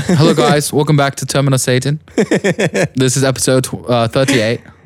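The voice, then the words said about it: Put-on British English accent. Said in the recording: “do an English accent ... you mean like British? ... Yeah, the country of England.”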